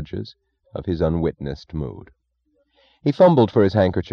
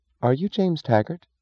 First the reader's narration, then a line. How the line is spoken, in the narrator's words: she asked